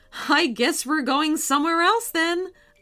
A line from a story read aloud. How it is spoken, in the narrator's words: laughed MJ's mom